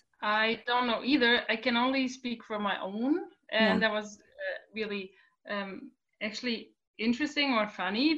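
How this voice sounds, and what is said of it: German-accented English. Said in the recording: “So you are in Germany. ... where your beautiful accent is from”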